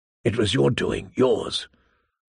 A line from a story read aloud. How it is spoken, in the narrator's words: a voice whispered inside her